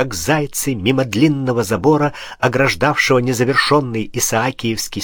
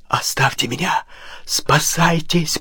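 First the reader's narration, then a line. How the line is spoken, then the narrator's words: Hoarse, exhausted wheeze. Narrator (Russian): прохрипел американец, едва волочивший ноги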